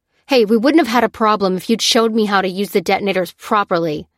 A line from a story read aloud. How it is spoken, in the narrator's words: snapped Lucy